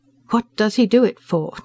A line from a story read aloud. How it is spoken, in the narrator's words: demanded Frankston in a tight voice